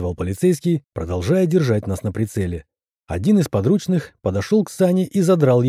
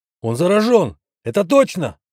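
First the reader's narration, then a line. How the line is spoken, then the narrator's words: Shouted out. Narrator (Russian): выкрикнул полицейский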